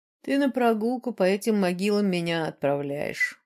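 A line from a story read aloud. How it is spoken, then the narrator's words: Grumbled. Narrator (Russian): проворчал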